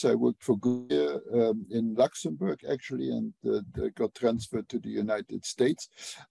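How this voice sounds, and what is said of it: Non-native English, Luxembourgish accent. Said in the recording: “you may notice from my accent, I did not grow up speaking English. I grew up in Europe, in Luxembourg.”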